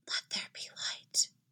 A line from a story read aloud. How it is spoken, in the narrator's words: whispers into the darkness